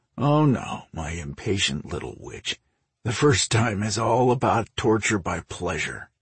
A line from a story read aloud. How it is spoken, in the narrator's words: he chuckled